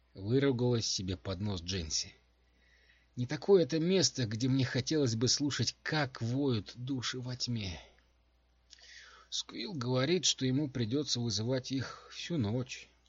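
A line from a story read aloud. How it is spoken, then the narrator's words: Soft. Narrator (Russian): мягко сказал Калла Маланик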